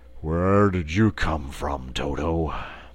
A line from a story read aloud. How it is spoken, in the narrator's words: the Cowardly Lion ... he said sleepily